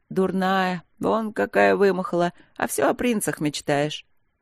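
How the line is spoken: Snort and laugh. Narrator (Russian): Капитан фыркнула, засмеялась

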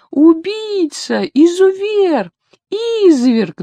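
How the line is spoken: Wild scream, old woman. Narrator (Russian): дурным голосом кричала старенькая бабушка

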